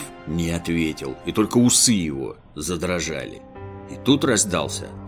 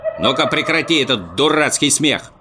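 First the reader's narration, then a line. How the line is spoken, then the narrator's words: Stern shout. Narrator (Russian): строго прикрикнул Муми-тролль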